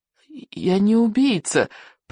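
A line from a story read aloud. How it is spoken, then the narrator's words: Trembling mumble. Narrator (Russian): промямлил Икинг дрожащим голосом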